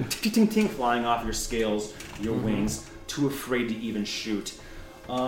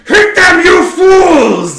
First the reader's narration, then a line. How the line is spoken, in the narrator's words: Drudge, Long Beard, and the High Marsh, like almost in like sequence with each other, scream